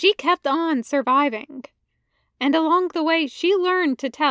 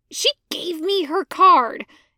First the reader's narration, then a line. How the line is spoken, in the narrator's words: Anakin hisses